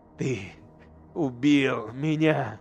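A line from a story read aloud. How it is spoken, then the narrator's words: Quiet trembling voice. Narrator (Russian): повторил Эйдолан тихим дрожащим голосом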